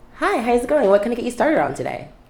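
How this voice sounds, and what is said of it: Customer service voice. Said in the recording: “my customer service voice is a completely different person”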